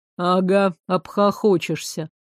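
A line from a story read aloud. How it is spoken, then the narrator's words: Gloomy agreement. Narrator (Russian): мрачно согласился Туман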